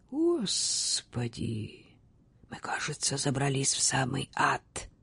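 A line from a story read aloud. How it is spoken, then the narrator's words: Whisper. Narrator (Russian): прошептал капитан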